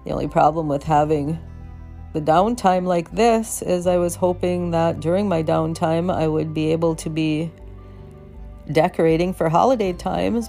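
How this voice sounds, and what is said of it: Voice of someone unwell. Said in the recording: “I'm sure you can tell by my voice that I am not feeling very well.”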